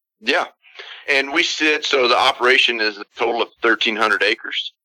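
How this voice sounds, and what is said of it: Slight Texan drawl. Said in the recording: “We're Texans. ... I picked up a little drawl there”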